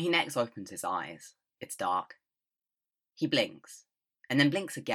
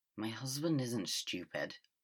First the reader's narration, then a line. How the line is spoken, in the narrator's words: Wei Wuxian mumbles